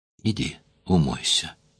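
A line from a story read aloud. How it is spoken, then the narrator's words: Soft repetition. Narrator (Russian): повторил он мягко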